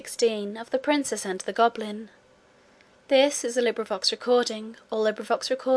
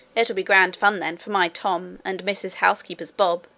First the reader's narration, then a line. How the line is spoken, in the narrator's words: said the cook